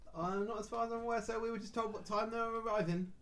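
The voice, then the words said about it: Inconsistent put-on cockney accent. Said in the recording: “my accent's going all over the place ... You both sound like Dick Van Dyke from Poppins.”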